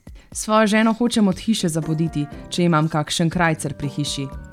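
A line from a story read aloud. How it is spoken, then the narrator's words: Man swearing an oath. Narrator (Slovenian): Mož pa se je zarotil in dejal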